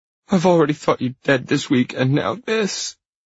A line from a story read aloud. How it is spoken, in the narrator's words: she sobs